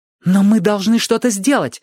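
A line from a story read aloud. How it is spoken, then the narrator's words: Exclamation. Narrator (Russian): воскликнула Али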